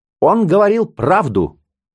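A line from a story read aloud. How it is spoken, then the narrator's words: Old man barking. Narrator (Russian): рявкнул дед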